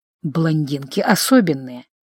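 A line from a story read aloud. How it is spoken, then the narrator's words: Hoarse mutter. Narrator (Russian): хрипло пробормотал инквизитор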